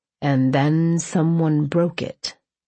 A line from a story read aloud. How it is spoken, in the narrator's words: he drawled